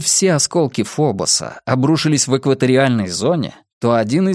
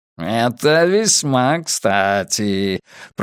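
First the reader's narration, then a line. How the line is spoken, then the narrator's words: Purring. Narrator (Russian): промурлыкал Койот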